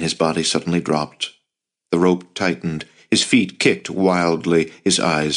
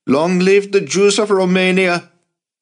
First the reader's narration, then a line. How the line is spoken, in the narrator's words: Max shouted at the top of his lungs